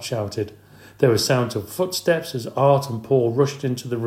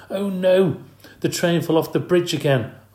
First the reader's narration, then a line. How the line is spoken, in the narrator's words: Art exclaimed